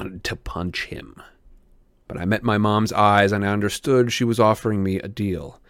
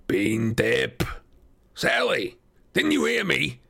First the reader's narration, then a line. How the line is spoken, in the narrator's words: Gabe growled